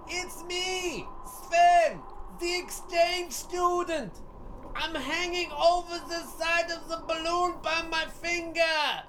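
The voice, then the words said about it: Comic character voice. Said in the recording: “Where did that voice come from?”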